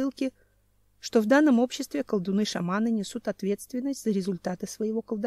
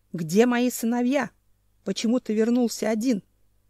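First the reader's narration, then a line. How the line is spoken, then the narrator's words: Growling. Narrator (Russian): Вместо приветствия зарычал Ненчич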